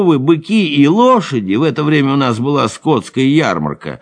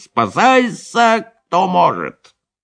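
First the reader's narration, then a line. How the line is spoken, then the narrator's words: Wild scream. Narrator (Russian): закричал диким голосом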